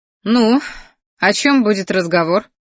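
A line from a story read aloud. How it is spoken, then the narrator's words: Snorting. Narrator (Russian): хмыкнула девушка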